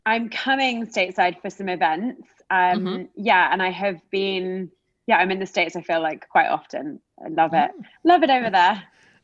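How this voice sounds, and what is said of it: British accent. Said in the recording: “is a Brit, so she gets bonus points for the accent.”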